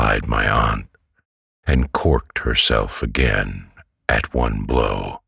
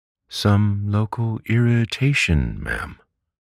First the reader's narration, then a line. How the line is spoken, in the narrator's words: he repeated sweetly